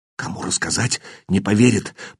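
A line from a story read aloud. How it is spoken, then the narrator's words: Apprentice whispering. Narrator (Russian): прошептал подмастерье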